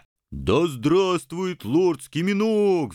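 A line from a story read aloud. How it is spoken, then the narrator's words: Enthusiastic roar. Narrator (Russian): взревел воодушевленный бульдозер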